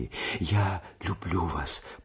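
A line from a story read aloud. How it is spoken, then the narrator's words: Whisper. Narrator (Russian): прошептала она еще раз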